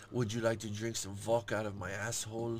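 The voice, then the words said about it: Put-on Russian accent. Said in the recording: “Does she do a Russian accent? ... Oh, yeah, bro. Yeah.”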